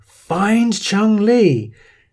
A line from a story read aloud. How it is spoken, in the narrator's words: You hear Bison yell